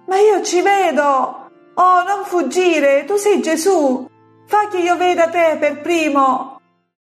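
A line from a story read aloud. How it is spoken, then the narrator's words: Boy shouting. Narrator (Italian): il ragazzo grida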